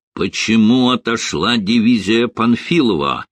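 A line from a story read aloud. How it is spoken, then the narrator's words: Rude question. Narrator (Russian): грубо спросил Жуков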